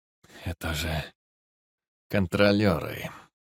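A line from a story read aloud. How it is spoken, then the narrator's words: Grim confirmation. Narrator (Russian): мрачно подтвердил Самотоха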